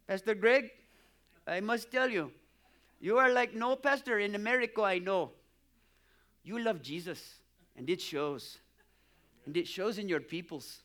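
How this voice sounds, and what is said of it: Put-on foreign accent. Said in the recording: “It was a little stronger accent than that”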